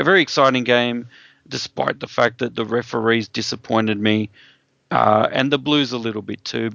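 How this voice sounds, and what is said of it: Hoarse voice. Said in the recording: “as you can probably hear, my voice is pretty hoarse from screaming the house down”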